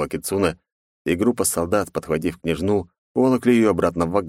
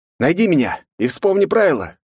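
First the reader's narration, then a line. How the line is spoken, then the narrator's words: Shouting, beaten man. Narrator (Russian): кричал избитый Чиро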